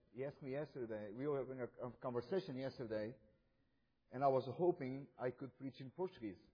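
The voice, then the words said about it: Non-native foreign accent in English. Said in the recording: “you can tell by my accent that I did not born in this country”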